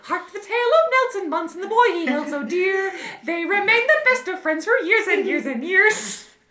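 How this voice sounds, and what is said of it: Sung cartoon character voice. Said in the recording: “Are you the voice of Martin? ... I can do that voice.”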